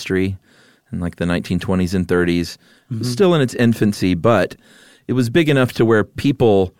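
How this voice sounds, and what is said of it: Usual voice. Nothing is said of it.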